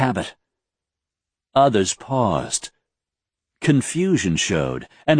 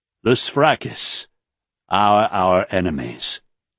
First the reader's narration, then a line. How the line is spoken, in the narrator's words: Raythan said, speaking with more control now, his voice firm rather than passionate